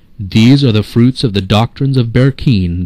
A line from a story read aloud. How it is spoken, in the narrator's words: they cried